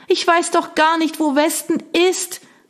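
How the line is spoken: Shout lost in wind. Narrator (German): rief, aber der Wind riss ihr die Worte von den Lippen

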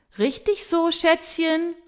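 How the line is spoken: Cheering call. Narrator (German): ruft Tamara Schöne applaudierend

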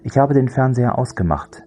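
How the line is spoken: Calm reply. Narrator (German): entgegnete Andy ruhig

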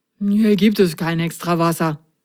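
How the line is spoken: Mumbling. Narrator (German): nuschelte er

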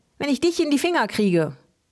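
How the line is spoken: Called out. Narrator (German): rief Helmi

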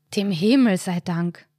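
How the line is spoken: Sighs. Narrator (German): seufzt Karl dann

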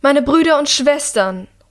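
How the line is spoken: Calling out. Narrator (German): ruft die Regentin

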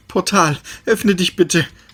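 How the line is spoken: Pleading. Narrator (German): flehte Perry

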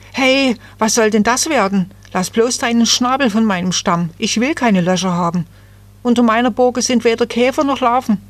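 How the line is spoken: Frightened cry. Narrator (German): voller Angst rief

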